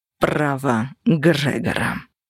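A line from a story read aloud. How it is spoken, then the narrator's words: Icy reply. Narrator (Russian): ледяным голосом ответил Кости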